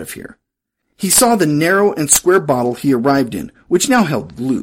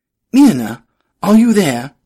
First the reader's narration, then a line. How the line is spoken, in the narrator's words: He cried